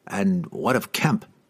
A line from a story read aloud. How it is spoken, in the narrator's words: Cassius asked anxiously